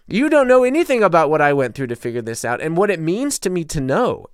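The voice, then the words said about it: Heated, agitated, emotional voice. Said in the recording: “I'm so fired up. I feel it right now. I hear it in my voice.”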